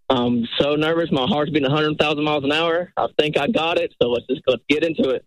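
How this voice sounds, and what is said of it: Noticeable regional accent. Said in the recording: “I love the accent.”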